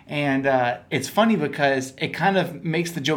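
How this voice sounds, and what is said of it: Usual voice. Nothing is said of it.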